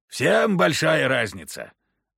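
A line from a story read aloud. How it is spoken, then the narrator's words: Sudden harsh snap. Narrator (Russian): неожиданно жестко огрызнулся Прохор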